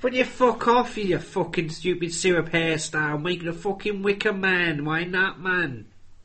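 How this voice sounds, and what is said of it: Christopher Eccleston impression, Manchester accent. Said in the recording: “he's doing a Manchester accent ... That was Christopher Eccleston in a...”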